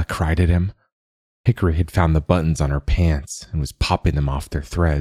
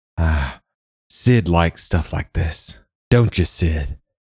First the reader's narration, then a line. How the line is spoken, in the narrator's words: Hickory panted